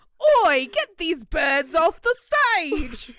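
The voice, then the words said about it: Terrible put-on Cockney English accent. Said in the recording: “were going to do a terrible English accent ... No matter how I say it, I always sound like the Artful Fucking Dodger.”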